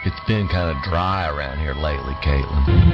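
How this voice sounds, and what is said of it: Radio announcer voice. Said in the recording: “You talk funny, Daddy. ... That's my radio voice”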